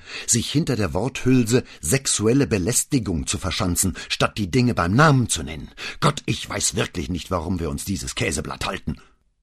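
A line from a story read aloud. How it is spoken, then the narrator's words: Angry snarl. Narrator (German): fauchte wütend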